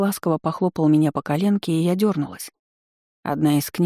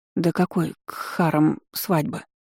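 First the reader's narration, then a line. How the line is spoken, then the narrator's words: Through gritted teeth. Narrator (Russian): Процедила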